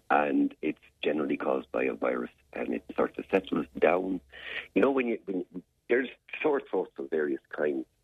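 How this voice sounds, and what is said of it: Hoarse, deep laryngitis voice. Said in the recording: “you have a little bit of laryngitis today ... I have a little bit of laryngitis. I'm talking like this ... I've got sort of great gravitas in my voice ... I'm hoarse.”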